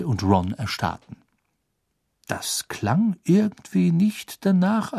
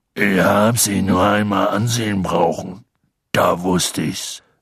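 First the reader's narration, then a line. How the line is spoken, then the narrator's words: Strangely rough voice. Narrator (German): sagte er mit seltsam rauer Stimme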